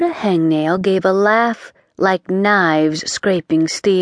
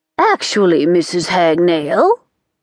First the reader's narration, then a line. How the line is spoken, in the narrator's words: the Grand High Witch said haughtily